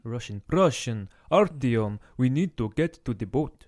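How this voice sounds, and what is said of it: Poor put-on Russian accent. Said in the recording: “That was terrible accent ... Better, but better. Not good ... Not great ... it's not even Russian”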